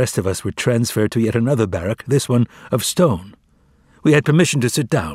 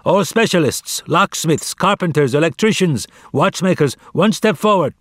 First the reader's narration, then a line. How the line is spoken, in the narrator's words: The capos arrived, shouting